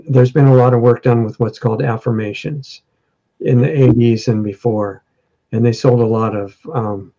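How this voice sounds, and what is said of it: Worn-out, strained voice. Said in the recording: “my voice is worn out”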